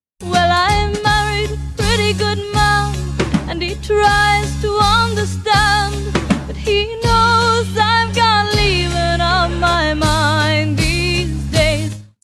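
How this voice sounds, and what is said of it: Odd, affected, trained-sounding accent. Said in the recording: “What the flying fuck is this accent that Crystal Gayle is using? ... That's a girl from Indiana who was forced to take voice lessons.”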